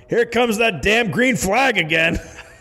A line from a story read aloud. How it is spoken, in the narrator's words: A Confederate officer, looking through his binoculars, saw that the brigade was reforming for another charge and yelled